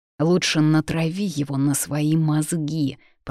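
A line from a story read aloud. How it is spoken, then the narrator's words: Through gritted teeth. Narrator (Russian): процедил Фабиан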